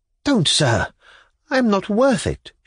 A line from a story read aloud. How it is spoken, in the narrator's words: faltered